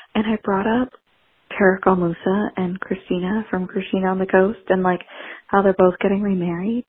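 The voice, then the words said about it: Whispering. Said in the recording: “I'm at my family's Christmas gathering. That's why I'm kind of whispering.”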